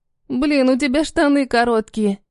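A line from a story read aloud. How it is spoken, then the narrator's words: Giggling. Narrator (Russian): хихикаю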